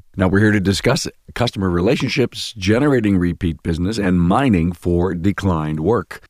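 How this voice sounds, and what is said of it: Congested, under-the-weather voice. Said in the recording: “with a cold, suffering through this. Sorry, my voice isn't quite what it should be.”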